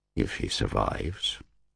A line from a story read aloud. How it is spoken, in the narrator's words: Kaiser added grimly